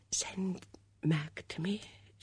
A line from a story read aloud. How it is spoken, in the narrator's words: she whispered